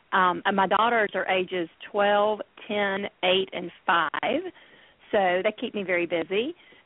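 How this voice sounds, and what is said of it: Alabama Southern US accent. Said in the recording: “I live in Birmingham, Alabama, as you can probably tell from my accent.”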